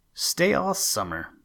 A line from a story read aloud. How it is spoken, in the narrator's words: exclaimed a jolly little snow bunting